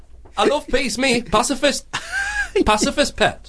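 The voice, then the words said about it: Geordie accent impression of Gandhi. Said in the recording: “What a Geordie accent ... You can't put that accent on Gandhi”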